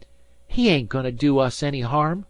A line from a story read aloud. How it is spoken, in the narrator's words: said Dan hotly